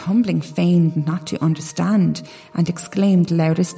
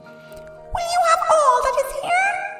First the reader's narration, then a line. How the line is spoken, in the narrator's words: Thumbling cried out with all his might